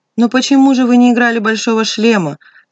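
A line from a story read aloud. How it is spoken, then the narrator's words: Sharp cry. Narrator (Russian): вскрикнул Николай Дмитриевич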